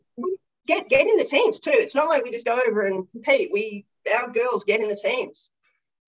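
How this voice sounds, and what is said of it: Australian accent. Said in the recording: “You can't hide your accent when you're over there. ... the Australian accent”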